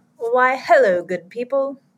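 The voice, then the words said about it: Put-on unidentified accent. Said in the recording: “I don't know what that accent was”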